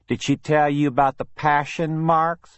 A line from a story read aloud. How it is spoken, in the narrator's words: Billy sneered